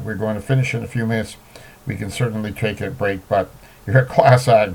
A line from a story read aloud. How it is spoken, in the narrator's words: Barr said while laughing